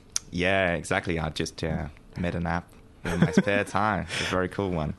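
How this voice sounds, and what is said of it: Slight French accent. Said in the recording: “I sense a slight accent, though. ... I'm actually French.”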